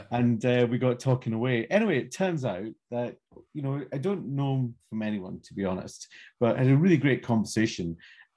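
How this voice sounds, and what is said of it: Scottish Edinburgh-like accent. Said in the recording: “are you Scottish? ... You from Edinburgh? ... he's got a fairly similar accent to mine. Well, not actually, nobody's got a similar accent to mine”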